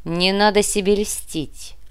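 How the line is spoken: Cold request. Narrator (Russian): холодно попросил

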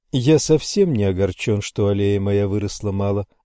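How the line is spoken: Plain. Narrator (Russian): ответил я

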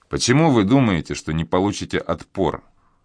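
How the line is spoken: Scoffing snort. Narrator (Russian): Белобрысый хмыкнул

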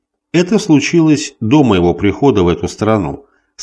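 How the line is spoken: Plain. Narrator (Russian): сказала она

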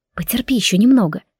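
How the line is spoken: Whispered. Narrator (Russian): шепнула я ей

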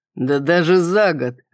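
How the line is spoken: Laughing. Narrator (Russian): рассмеялся Кристиан

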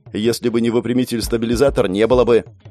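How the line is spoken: Snapping retort. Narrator (Russian): огрызнулся Андрей

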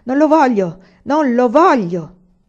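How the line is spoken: Wicked man shouting. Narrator (Italian): Il cattivo uomo gridava

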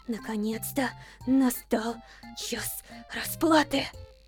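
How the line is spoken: Gloating mutter. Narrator (Russian): Злорадно бормотала Стефани, она же просто Стеф

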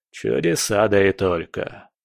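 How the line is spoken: Wry grunt. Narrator (Russian): хмыкнул Потемкин

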